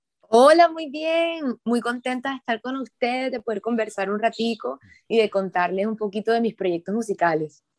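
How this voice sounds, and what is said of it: Barranquilla Colombian Spanish accent. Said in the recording (Spanish): “el acento es netamente barranquillero”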